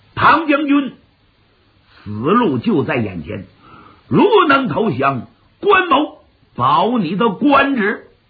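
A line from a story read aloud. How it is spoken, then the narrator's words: Loud shout. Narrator (Chinese): 云长高声喊喝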